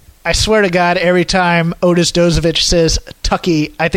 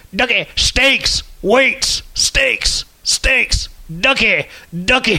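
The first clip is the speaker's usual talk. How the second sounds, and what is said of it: Imitates another person's voice. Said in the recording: “That's my impression of the Heavy Machinery promo video.”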